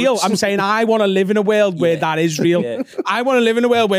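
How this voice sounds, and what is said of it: Usual voice. Nothing is said of it.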